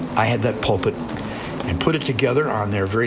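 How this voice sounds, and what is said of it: Usual voice. Nothing is said of it.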